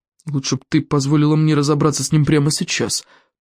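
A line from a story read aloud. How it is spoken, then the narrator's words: Grumbled. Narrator (Russian): пробурчал Элвин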